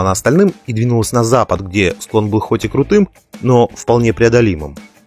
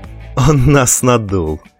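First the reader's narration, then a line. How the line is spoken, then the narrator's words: Laughing. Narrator (Russian): рассмеялся Габриэль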